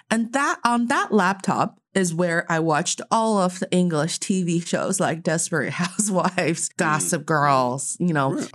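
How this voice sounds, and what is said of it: American-sounding English accent. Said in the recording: “where did you get your accent from? Did you live on the West Coast?”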